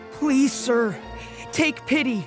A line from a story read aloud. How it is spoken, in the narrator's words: begged him